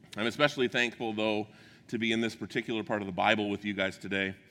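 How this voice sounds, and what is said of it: Deep, strained, failing voice. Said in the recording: “my voice sounds deeper ... I might lose my voice”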